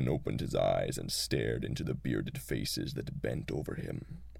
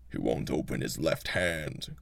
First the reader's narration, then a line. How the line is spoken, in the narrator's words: growled another